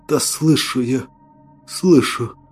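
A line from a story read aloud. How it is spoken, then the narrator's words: Weak exhausted whisper. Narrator (Russian): прошептал я, на большие силы уже не хватало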